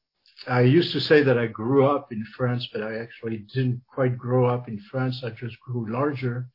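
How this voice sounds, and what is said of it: French accent. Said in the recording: “The name and the accent, for those that are familiar with it, I was born in France.”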